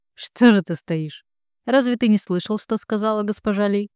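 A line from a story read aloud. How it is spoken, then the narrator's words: Mocking emperor. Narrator (Russian): Насмешливо говорит император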